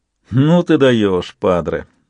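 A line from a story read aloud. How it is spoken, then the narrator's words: Sarcastic snort. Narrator (Russian): Фраучи саркастически хмыкнул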